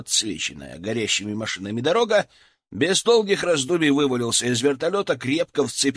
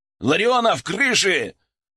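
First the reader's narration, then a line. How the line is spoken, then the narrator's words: Barked into radio. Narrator (Russian): рявкнул я в рацию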